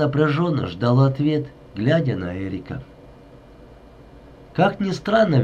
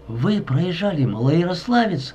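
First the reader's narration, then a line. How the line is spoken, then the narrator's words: Exclaiming. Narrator (Russian): воскликнула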